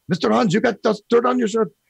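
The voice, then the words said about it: Poorly done put-on foreign accent. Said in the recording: “I'm really bad with accents, if no one can tell.”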